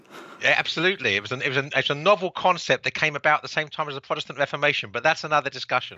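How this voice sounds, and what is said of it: English accent. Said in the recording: “you also hail from the greatest country in the world ... England ... your excellent accent”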